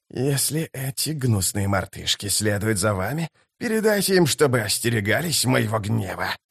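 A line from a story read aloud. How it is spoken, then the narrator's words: Hissing. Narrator (Russian): прошипел Искарал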